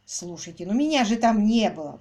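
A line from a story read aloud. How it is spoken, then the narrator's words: Exclamation. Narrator (Russian): воскликнул репортер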